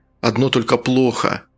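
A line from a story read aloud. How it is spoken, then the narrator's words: Sighing. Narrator (Russian): Фунтик вздохнул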